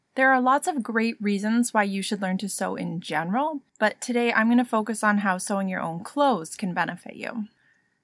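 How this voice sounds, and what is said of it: Congested voice from a cold. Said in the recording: “I have a bit of a cold today. I'm hoping that won't affect the audio quality too much”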